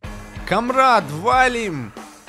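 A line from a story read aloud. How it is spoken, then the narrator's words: Shout. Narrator (Russian): закричал я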